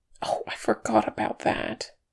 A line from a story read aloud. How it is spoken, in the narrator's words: muttered Fili